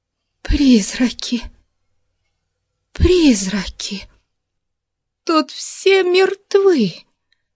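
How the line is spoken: Girl sobbing. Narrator (Russian): Рыдала девушка

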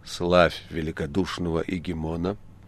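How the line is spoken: Solemn whisper. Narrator (Russian): торжественно шепнул он

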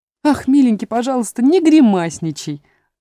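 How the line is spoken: Exclaimed. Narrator (Russian): воскликнула она

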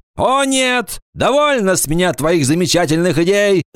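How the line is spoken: Shout. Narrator (Russian): закричал он

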